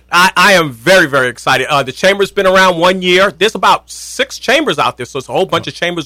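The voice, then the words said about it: Brooklyn accent. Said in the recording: “I love that Brooklyn accent ... haven't lost my accent”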